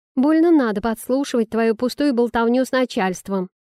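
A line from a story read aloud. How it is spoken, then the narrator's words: Snapping. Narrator (Russian): огрызнулась Талика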